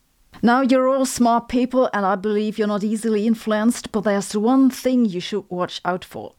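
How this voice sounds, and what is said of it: German accent. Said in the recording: “my German accent is real”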